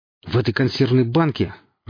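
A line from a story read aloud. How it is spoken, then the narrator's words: Irritated speech. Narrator (Russian): раздраженно говорил Гриф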